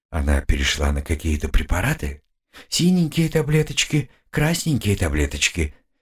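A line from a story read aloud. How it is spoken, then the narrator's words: Quiet question. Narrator (Russian): тихонько спросил я у Нифонтова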